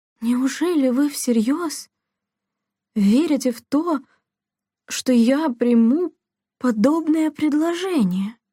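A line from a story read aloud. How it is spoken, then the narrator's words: Stammering, strained. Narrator (Russian): Запинаясь, выдавила Делла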